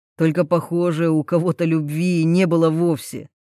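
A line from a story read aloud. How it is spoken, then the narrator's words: Through clenched teeth. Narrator (Russian): цедит он сквозь зубы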